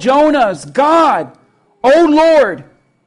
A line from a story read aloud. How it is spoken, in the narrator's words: they pleaded